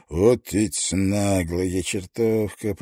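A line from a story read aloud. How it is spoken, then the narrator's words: Grumbling. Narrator (Russian): проворчал он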